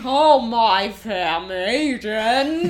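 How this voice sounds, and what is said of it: Imitates a bad British accent. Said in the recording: “try to do a British accent ... It's not good.”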